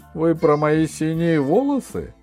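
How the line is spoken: Laughing. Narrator (Russian): засмеялся новоявленный маркиз де Синевлас

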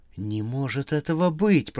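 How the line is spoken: Awed whisper. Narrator (Russian): прошептала она в восхищении

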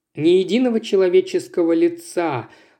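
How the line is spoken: Sigh. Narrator (Russian): вздохнул Литл Джон

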